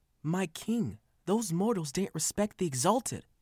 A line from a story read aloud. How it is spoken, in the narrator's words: Varosa pleaded